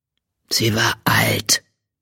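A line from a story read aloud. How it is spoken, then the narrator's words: Murmur. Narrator (German): murmelte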